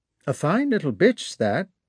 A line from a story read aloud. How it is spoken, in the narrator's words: said he in a careless tone